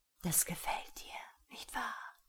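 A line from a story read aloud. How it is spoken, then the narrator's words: Whispering. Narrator (German): flüsterte er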